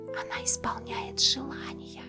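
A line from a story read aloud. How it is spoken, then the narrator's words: Children whispering. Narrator (Russian): шептали дети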